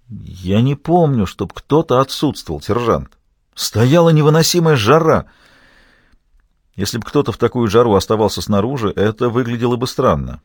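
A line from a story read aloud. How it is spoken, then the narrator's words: Timid remark. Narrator (Russian): первый капрал робко заметил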